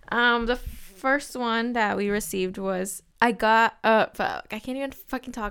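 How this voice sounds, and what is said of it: Stuttering speech. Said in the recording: “I'm stuttering. Why am I stuttering?”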